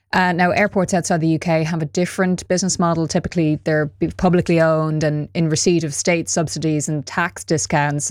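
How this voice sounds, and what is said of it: Irish accent. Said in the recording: “I know in Dublin, Dublin Airport, which I'm judging from my accent, you might know, that's where I'm from.”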